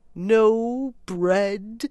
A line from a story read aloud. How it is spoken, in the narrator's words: groaned the mole dolorously